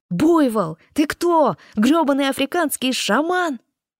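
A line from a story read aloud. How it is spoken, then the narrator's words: Yelling. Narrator (Russian): Иэн заорал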